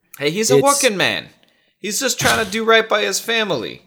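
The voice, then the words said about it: Awful character voice impression. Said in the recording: “one of your world-renowned accents?... Horrible impressions. They're world-renowned for being awful. Just terrible.”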